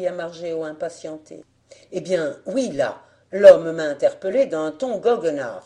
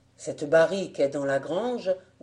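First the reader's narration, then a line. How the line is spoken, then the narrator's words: Grumbling after pause. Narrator (French): grogna-t-il au bout d'un instant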